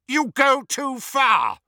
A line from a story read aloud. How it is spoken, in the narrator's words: shouted Scrimgeour